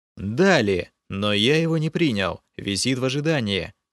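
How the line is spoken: Plain. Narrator (Russian): ответил я

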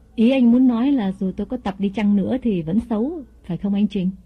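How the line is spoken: Smiling question. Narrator (Vietnamese): mỉm cười hỏi lại

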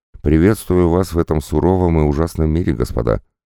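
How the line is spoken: Sighing. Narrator (Russian): Он вздохнул и добавил

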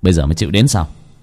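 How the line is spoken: Smiling. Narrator (Vietnamese): Bác cổ mỉm cười

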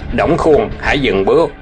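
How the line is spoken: Shouting command. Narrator (Vietnamese): có người quát

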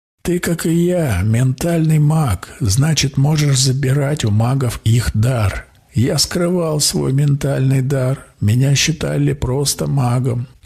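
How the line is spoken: Laughing. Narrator (Russian): колдун засмеялся

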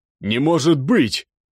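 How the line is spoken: Shouting. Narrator (Russian): кричал капитан

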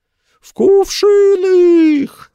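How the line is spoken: Guest's yell. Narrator (Russian): завопил один из гостей

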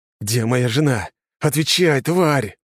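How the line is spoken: Angry hiss. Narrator (Russian): прошипел

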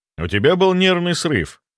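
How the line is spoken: Calm. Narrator (Russian): сказал спокойно

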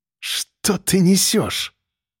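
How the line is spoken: Hissed. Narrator (Russian): прошипела она

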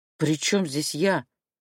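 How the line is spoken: Frightened. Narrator (Russian): Вышла испуганно

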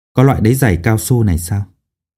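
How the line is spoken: Soft question. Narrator (Vietnamese): nhỏ giọng hỏi

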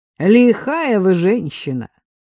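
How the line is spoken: Laughing. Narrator (Russian): рассмеялась Агнесса

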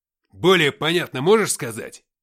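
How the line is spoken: Barking. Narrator (Russian): рявкнул Смирнов

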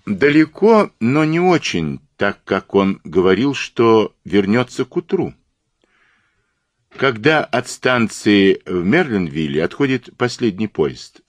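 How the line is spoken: Plain. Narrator (Russian): спросил Пуаро

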